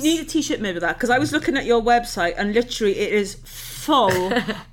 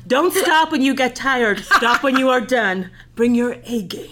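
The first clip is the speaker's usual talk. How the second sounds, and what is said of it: Put-on American accent. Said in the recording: “I'm going to do all these in American accent.”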